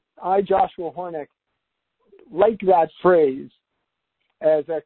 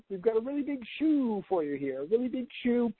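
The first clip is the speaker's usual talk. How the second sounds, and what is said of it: Imitates another person's voice. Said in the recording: “my Ed Sullivan impression”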